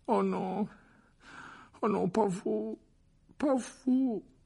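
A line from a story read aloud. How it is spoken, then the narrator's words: Groaning. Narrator (French): gémit-il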